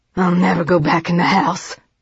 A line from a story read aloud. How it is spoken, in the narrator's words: Bernie growled